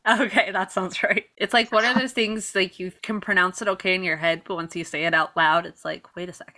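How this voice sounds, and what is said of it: Usual voice. Nothing is said of it.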